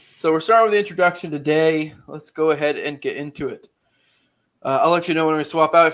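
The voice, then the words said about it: Nasal voice. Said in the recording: “my voice is kind of nasally”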